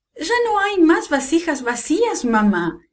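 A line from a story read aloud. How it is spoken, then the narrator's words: Boys exclaiming together. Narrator (Spanish): exclamaron sus muchachos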